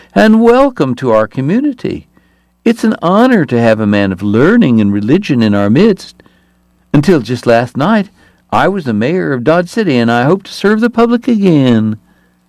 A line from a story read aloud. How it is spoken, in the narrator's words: Hoover said in a startling high voice